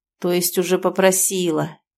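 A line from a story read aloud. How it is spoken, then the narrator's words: Low muffled growl. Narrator (Russian): глухо рычит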